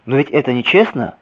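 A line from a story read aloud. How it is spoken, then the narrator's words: Child exclaiming. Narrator (Russian): воскликнул малыш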